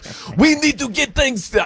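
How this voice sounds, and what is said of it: Failed impression, sounds Middle Eastern. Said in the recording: “I can't do a Wemby impression. That sounded more like a Middle Eastern right there.”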